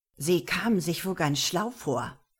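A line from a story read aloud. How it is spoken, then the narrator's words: Hissing. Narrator (German): zischte er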